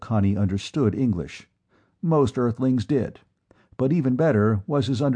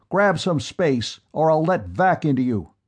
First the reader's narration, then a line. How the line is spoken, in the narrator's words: clanged his bubble against the man's helmet for direct communication and shouted